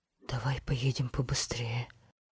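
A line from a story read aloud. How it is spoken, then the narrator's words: Frightened, trembling voice. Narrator (Russian): Впервые парикмахер по-настоящему испугался и произнес дрожащим голосом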